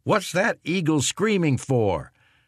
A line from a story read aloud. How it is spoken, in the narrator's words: an 82nd man would ask his buddies